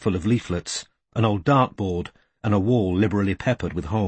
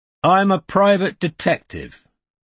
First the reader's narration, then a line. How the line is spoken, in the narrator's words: said Strike, raising his voice